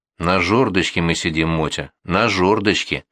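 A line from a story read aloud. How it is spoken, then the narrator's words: Angry whisper. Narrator (Russian): зло прошепел он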